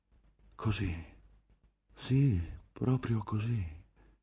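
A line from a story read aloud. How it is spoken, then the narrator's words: Deep sigh. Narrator (Italian): fiatò in un profondo sospiro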